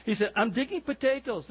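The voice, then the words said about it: Put-on Scottish accent. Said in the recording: “somebody just chuckled at my Scottish accent.”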